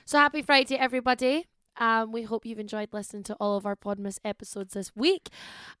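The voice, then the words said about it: Unusually deep voice. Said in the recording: “my voice sounds really deep today. Really deep.”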